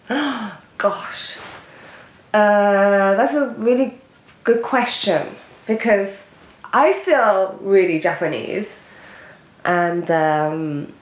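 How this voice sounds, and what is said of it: Heavy British accent. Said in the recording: “You obviously have a heavy British accent”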